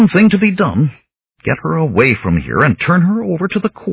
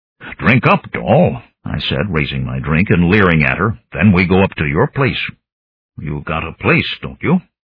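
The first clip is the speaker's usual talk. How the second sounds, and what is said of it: Deepened voice, changed accent. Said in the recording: “I deepened my voice and changed my accent and manner of speaking”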